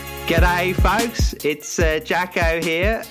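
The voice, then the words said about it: Exaggerated Australian accent. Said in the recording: “That is the Australian accent, because Tim is just cringing at that.”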